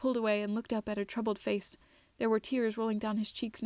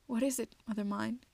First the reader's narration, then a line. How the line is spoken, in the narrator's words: he asked nervously